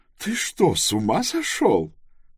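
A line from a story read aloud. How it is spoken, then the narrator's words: Laughing again. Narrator (Russian): Вновь рассмеялась она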